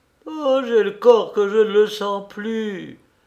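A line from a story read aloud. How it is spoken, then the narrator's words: Moaning. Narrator (French): gémit-elle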